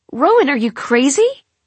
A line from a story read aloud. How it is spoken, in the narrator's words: Mira shouts